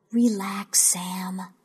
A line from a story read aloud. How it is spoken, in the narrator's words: I whispered